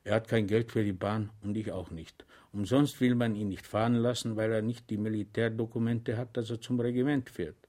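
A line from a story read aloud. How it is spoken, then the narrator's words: Secretive whisper. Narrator (German): flüsterte Korporal Balanek geheimnisvoll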